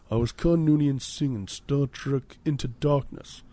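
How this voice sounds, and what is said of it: Actor impression drifting into film character. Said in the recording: “My Benedict Cumberbatch impersonation has really turned into more of a Cameron from Ferris Bueller's Day Off impersonating Sloane's dad impersonation.”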